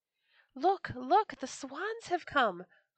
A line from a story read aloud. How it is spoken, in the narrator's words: cried some children